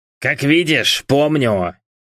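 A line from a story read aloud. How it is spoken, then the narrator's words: Wheeze. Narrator (Russian): Просипел Дэвис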